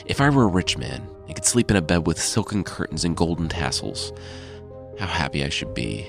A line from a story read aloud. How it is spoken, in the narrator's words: Unable to work the rock loose, he muttered to himself